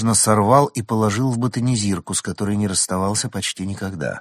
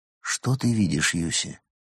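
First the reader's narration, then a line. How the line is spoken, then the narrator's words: Quiet question. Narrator (Russian): Прост тихо спросил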